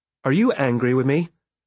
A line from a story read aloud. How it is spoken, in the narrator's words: she asked